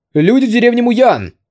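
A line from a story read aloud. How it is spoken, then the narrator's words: Distant shout through megaphone. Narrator (Russian): Дагоу Цзи достал большой мегафон и закричал издалека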